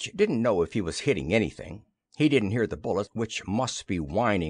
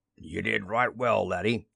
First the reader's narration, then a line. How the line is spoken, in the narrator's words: he rumbled